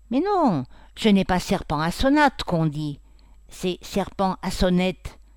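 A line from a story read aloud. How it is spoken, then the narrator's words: Eager, impatient, triumphant. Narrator (French): dit-il d'un ton zélé, impatient et triomphal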